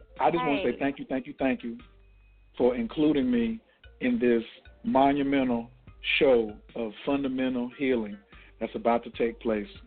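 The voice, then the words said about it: Calm radio voice. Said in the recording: “that's probably the calmest I'm going to be for the rest of the night. So I'm just giving you my calm radio voice”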